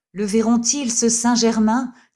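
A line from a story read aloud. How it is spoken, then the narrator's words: Cried out. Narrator (French): s'écria-t-il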